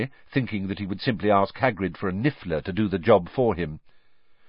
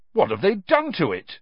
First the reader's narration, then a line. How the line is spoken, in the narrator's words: Cedric said indignantly